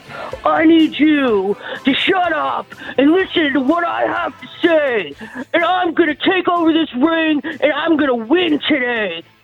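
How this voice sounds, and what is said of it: Generic pro wrestler voice. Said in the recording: “that was more like that was generic wrestler... That was a Hollywood version”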